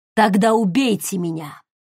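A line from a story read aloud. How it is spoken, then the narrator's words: Growling. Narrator (Russian): прорычал грач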